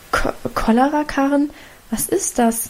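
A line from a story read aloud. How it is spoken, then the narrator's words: Mother stammering. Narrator (German): stammelte Mutter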